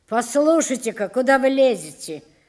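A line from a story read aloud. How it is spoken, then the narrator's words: Director grumbling. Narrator (Russian): заворчал директор на обтрепанного человека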